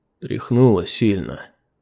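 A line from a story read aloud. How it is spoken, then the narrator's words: Weak but calm voice. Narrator (Russian): ответил воин слабым, но совершенно спокойным голосом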